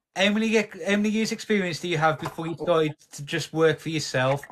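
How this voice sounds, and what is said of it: Black Country English accent. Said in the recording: “what's it like to have a silky voice? ... nobody likes my accent ... Yam, yam. He is a yam yam, isn't he?”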